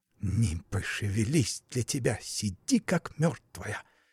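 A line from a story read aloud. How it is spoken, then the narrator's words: Snakelike hiss. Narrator (Russian): прошипела по-змеиному Аграфена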